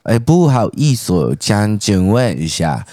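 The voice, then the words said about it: Put-on foreign accent. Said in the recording (Chinese): “学练这个口音”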